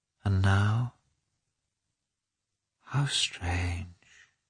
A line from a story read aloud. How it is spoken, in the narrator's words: she murmured